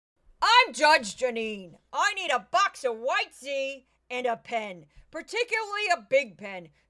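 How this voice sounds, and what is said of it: Judge Jeanine impression. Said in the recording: “a Judge Jeanine impression... I'll do a very quick one”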